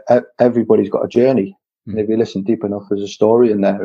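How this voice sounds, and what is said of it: Geordie northeast English accent. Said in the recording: “from your accent, obviously you're from the northeast of the UK... So you're a Geordie.”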